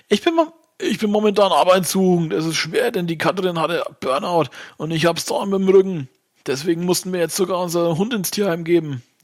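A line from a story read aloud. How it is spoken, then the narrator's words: Whining complaint. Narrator (German): jammert Toni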